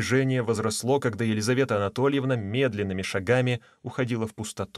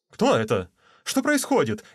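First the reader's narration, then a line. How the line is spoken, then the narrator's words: Frightened man's voice. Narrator (Russian): испуганным голосом проговорил мужчина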